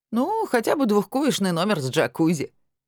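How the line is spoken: Giggling. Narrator (Russian): хихикнул Виталик

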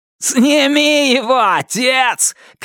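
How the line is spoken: Shout. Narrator (Russian): крикнул Туз

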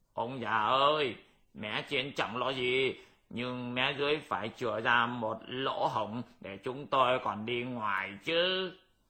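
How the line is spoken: Yelling. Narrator (Vietnamese): Bát Giới gào lên

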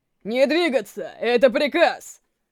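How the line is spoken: Furious thundering shout. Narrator (Russian): Прогремев в проулке, яростный крик

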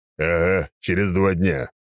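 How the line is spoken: Grumbling. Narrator (Russian): пробурчал Громила

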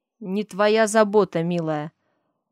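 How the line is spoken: Angry whisper. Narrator (Russian): Зло шеплю я

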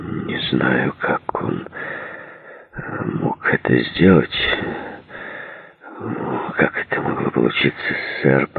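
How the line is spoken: Mumbling. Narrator (Russian): пробормотал Джей

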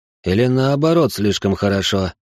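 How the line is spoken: Snort. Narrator (Russian): хмыкнул

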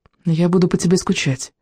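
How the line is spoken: Quiet reply. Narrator (Russian): тихо ответила Изабель

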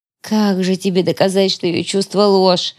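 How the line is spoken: Sighing. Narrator (Russian): вздохнула Юли Фрель

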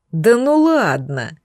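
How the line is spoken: Incredulous drawl. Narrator (Russian): недоверчиво протянул мага смерти

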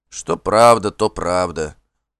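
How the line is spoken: Dejected confirmation. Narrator (Russian): упавшим голосом подтвердил хозяин

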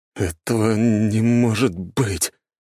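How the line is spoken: Trembling whisper. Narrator (Russian): дрожащим голосом прошептал куратор

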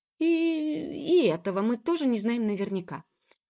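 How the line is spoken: Blurted out. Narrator (Russian): выпалила Джуб

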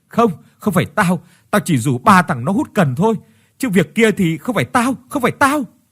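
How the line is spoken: Panicked screaming. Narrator (Vietnamese): Tuấn trợn tròn mắt mà gào thét

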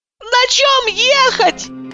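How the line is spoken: Shouted. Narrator (Russian): закричала я

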